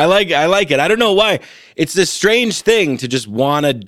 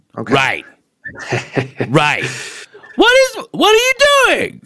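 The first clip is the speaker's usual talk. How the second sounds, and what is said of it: Imitates another person's voice. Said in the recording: “my Tim Dillon impression ... You're very good at impressions”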